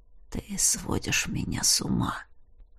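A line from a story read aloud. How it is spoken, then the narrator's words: Hoarse. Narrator (Russian): хрипло произносит он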